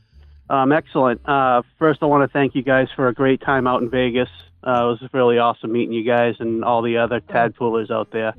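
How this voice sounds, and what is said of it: Thick Boston accent. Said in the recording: “Now I'm hearing the Boston... I remember that accent. That was it was thick and rich.”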